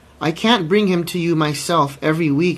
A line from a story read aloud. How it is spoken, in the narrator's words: she cried